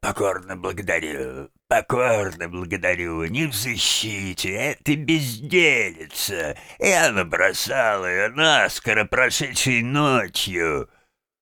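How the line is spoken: Pompous unpleasant wheeze. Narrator (Russian): заважничал, словно индюк, и противно сипел

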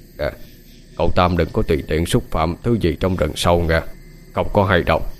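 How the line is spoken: Old beggar's soft reminder. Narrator (Vietnamese): Lão ăn mày khẽ nhắc

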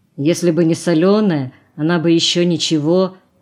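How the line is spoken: Embarrassed grumble. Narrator (Russian): пробурчал смущенный голос

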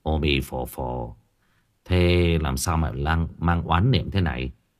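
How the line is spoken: Soft yet commanding. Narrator (Vietnamese): Tâm Trúc tưởng chừng như nói rất nhẹ nhàng

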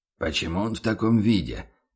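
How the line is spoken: Confused mutter. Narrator (Russian): непонимающе пробормотал фон Зайденберг

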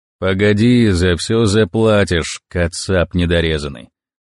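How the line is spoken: Muttered grumble. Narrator (Russian): буркнул один из них мне

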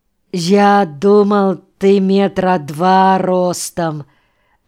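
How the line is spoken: Disappointed drawl. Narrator (Russian): разочарованно протянул он

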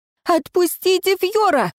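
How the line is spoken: Screaming. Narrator (Russian): завопила я

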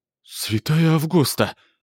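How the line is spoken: Exclamation. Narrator (Russian): воскликнула Клара

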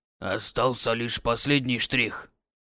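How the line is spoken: Hoarse remark. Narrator (Russian): хрипло отметил Цунаэси

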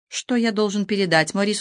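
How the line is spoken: Plain question. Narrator (Russian): спросил Жан

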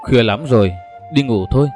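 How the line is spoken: Soft voice. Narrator (Vietnamese): Vợ anh Mõ nói khẽ

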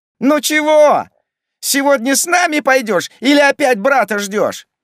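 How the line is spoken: Yelling over a din. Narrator (Russian): заорал Димка, перекрикивая общий ор

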